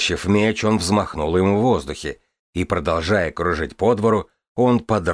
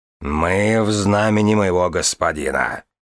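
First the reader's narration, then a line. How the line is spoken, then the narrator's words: Growled. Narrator (Russian): прорычал Дедрю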